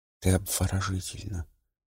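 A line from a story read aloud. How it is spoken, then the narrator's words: Quiet reply. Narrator (Russian): тихо ответил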